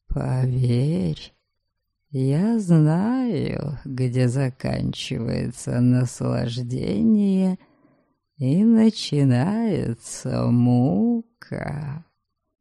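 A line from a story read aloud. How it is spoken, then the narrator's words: Hot breath in ear. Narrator (Russian): жарко выдохнул мне в ухо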